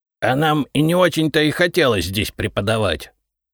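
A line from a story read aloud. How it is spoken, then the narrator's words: Offended voice. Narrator (Russian): обиженным голосом заявил Репей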